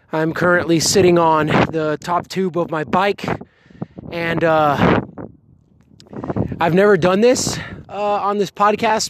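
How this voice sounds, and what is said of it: Out of breath, breathless speech. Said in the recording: “I'm a little bit out of breath.”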